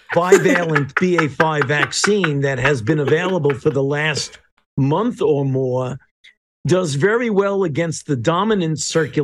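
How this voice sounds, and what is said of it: Thick Brooklyn accent. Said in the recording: “how thick that accent is ... you can't get any thicker ... The good old boy from Brooklyn”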